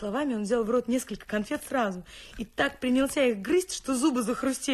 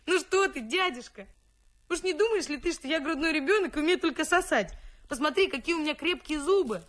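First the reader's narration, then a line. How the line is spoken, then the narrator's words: Loud laughing exclamation. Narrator (Russian): Феликс громко захохотал и воскликнул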